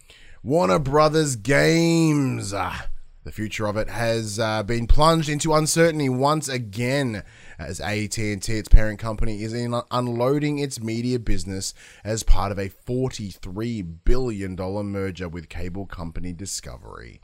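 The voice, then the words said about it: Worn-out, deteriorating voice. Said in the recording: “It's been a long weekend... And I can tell my voice is getting progressively worse.”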